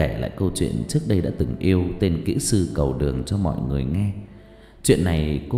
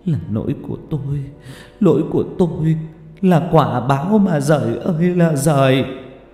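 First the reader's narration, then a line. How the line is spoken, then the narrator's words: Sobbing. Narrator (Vietnamese): cô ôm mặt nức nở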